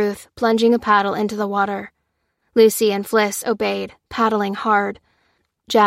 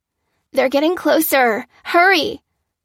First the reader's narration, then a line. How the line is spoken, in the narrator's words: cried Fliss